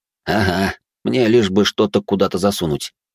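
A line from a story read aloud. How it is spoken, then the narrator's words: Wry snort. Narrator (Russian): хмыкнул Алекс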